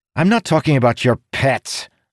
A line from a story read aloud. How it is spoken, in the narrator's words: Dougal snapped